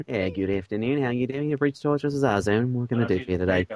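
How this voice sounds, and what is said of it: Good put-on Australian accent. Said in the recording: “That's a good Australian accent.”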